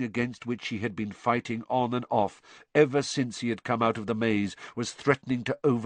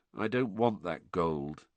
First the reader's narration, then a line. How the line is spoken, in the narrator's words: said Harry in an expressionless voice